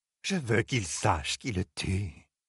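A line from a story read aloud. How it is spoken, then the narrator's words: Mutter. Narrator (French): marmonna Fain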